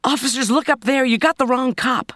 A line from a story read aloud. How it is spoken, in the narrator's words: Kate cried